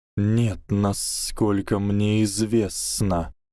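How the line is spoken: Hissing. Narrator (Russian): прошипел Гарри

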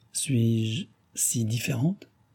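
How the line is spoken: Stammering, feigned surprise. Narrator (French): balbutia-t-elle, feignant l'étonnement

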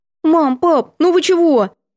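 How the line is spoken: Cautious squeak. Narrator (Russian): Я осторожно пискнула

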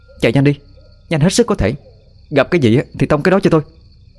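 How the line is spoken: Loud shout. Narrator (Vietnamese): hét lớn với Khải

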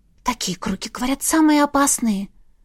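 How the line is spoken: Barely audible whisper, young witch. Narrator (Russian): прошептала едва слышно разноволосая ведьмочка

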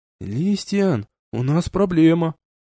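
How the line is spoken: Quiet. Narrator (Russian): тихо произнес

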